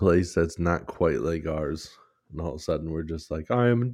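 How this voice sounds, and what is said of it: Usual voice. Nothing is said of it.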